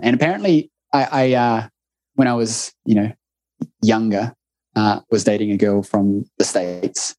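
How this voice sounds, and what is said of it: Strong New Zealand accent. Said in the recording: “your accent? ... apparently I have a strong one ... It's a Kiwi show, New Zealand show”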